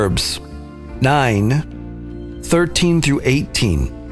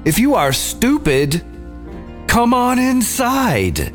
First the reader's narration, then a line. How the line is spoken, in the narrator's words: She shouts to everyone who passes by